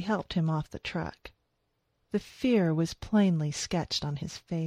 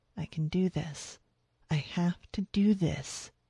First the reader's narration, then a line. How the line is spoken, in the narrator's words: she whispered